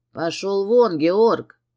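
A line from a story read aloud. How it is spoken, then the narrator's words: Barked through teeth. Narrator (Russian): Рявкнул Костас сквозь зубы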